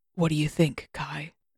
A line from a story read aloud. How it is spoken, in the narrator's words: he asked, his voice a soft rumble